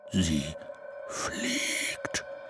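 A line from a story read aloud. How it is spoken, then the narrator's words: Whispering. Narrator (German): flüsterte er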